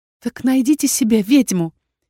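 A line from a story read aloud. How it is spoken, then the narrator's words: Squeak. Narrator (Russian): пискнула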